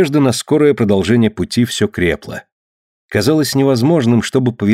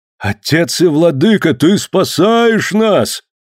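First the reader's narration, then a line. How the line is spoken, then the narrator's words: Frenzied shout. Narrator (Russian): вне себя закричал Кидога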